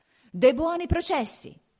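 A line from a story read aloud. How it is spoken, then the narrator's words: Shouted. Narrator (Italian): gridava il podestà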